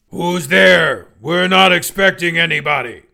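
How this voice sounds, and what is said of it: Deep, gravelly monster voice. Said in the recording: “deep voice ... the deep, gravelly nature of the voice ... some sort of super mutant”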